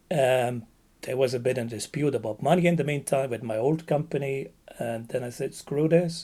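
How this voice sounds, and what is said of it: Texan accent. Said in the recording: “I went back to Texas where I finished my high school, as we all can hear from my accent, right? I'd really mm-hmm. sound like them, right?”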